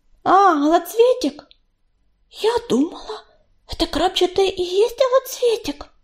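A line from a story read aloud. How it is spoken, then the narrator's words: Frightened whisper. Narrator (Russian): испуганно прошептала белочка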